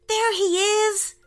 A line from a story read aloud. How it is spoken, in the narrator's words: shouted Isaac